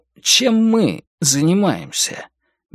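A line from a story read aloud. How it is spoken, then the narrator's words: Hesitant question. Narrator (Russian): неуверенно спросил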